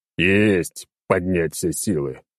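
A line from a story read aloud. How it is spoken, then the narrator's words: Deep, unenthusiastic bass. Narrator (Russian): пробасил старик, но как-то без энтузиазма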